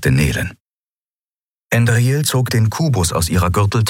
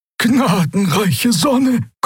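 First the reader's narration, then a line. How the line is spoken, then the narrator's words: Someone panting. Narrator (German): keuchte jemand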